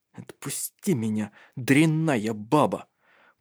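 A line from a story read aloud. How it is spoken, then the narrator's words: Whispered. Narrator (Russian): произнес он шепотом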